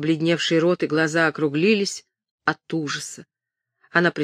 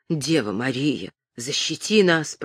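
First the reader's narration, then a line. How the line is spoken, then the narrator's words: Frightened whisper. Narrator (Russian): прошептала Мельбурга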